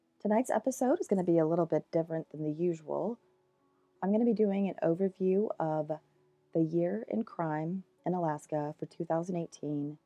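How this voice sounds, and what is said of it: Scratchy voice from a cold. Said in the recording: “I got a cold. ... my voice is a little bit more scratchy than usual”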